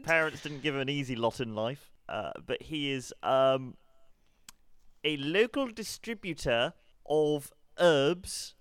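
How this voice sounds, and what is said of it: Put-on West Country South African accent. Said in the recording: “Kind of West Country South African.”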